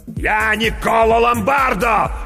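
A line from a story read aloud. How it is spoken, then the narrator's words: Shouted. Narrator (Russian): закричал мастер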